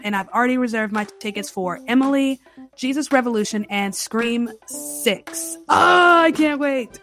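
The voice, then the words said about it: Excited voice. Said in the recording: “Can you hear it in my voice? I am excited.”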